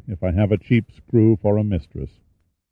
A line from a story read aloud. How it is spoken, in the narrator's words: Pitt said sadly